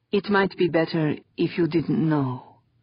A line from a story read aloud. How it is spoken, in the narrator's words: she said softly